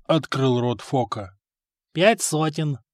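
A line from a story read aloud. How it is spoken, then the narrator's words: Calm answer. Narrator (Russian): спокойно ответил проигравшийся только что в пух и прах игрок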